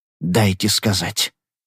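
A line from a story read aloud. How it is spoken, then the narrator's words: Hoarse wheeze. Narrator (Russian): прохрипел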